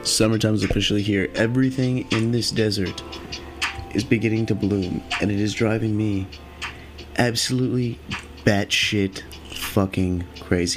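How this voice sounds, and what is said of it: Voice sounding kind of funny. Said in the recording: “Sorry about my voice sounding kind of funny, you know, again.”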